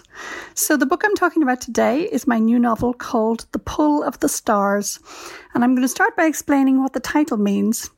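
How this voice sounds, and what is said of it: Irish accent. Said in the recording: “I'm Irish, as you can probably tell from the accent”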